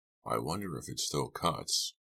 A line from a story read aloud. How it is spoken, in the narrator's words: Farberson murmured more to himself than to his prisoners